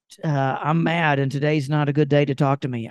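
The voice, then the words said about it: Put-on Southern US accent. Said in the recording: “I'm doing it in Southern accents”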